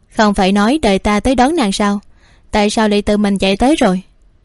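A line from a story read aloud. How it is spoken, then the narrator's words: Faint wry smile. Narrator (Vietnamese): Dạ Quân Mặc cười nhạt, rồi nói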